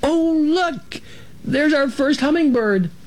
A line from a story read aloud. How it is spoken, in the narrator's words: Ilona let out a little squeal right then, saying